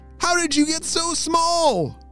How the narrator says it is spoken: Mackenzie shouted

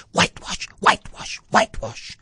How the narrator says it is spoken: whispering

